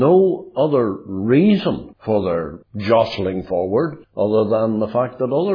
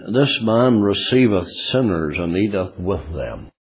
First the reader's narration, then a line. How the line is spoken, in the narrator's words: murmuring among themselves and saying